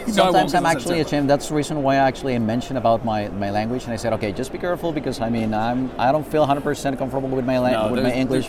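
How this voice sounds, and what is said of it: Mexican-accented English. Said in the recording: “I'm still digging that accent. If I could talk like that, I think I could rule the world ... the accent, in whatever part of Mexico”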